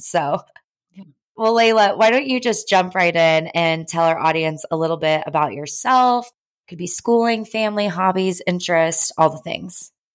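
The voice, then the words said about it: Raspy, hoarse voice. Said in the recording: “apologies for my voice. I don't normally sound like this. But hey, it's kind of raspy.”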